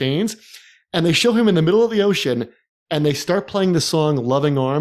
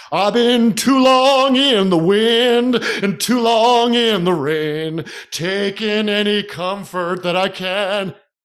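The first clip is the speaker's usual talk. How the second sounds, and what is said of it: Sung imitation of another person's voice. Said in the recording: “that impersonation is so good”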